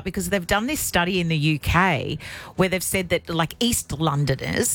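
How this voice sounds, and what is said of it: Broad Australian accent. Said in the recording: “I think I'm more broad on the radio. ... Like a broad Australian accent. ... It's very broad.”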